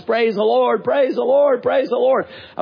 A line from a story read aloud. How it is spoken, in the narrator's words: She started jumping up and down and shouting at the top of her lungs